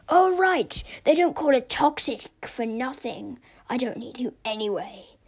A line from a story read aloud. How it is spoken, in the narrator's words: sneered with a sinister smile